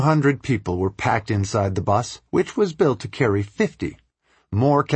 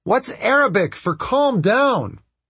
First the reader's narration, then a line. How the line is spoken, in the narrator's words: I yelled